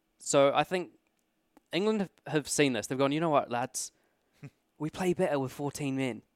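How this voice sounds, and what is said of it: Usual voice. Nothing is said of it.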